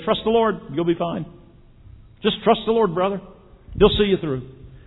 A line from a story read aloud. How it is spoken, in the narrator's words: very calmly and glibly say